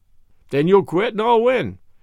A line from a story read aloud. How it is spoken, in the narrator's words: says Rocky with a laugh